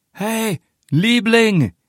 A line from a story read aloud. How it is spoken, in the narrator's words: shouts, his voice echoing in the night quiet of the street